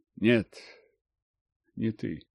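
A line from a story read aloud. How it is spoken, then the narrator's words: Quiet. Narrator (Russian): тихо произнесла она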